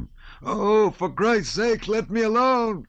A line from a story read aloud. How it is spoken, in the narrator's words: cried the wounded man